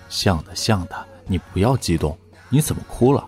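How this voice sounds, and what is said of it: Quiet, soft consoling voice. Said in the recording (Chinese): “小声劝慰”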